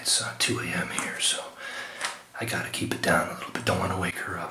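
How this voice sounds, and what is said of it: Whispering quietly. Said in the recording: “I'm whispering a little bit because my woman is sleeping.”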